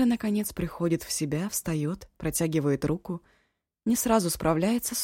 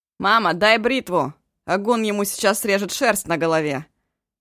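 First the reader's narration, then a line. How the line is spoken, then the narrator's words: Yelling. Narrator (Russian): Вопит тем временем Ишу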